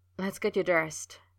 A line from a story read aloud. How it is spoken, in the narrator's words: he said, his voice low and urgent